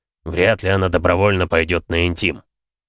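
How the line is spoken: Grumbling. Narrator (Russian): пробурчал полковник

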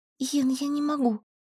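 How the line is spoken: Quiet whisper. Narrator (Russian): прошептала тихо

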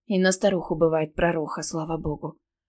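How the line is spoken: Muttering. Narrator (Russian): пробормотала

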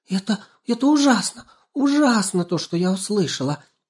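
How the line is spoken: Squeaky voice. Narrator (Russian): пищала Банечка

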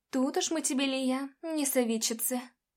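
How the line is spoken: Soft woman. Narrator (Russian): мягко ответила Джулия

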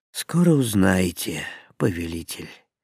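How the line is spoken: Sad reply. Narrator (Russian): печально ответил волшебник

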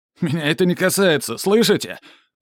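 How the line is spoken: Shouted. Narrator (Russian): крикнул Шильке

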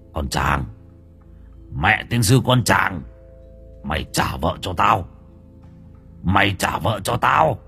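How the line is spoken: Harsh, menacing voice. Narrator (Vietnamese): Ông Lăm gằn giọng

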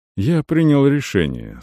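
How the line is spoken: Soft. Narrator (Russian): сказал Арон мягко

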